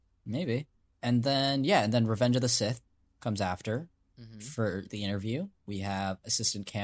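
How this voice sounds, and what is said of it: Usual voice. Nothing is said of it.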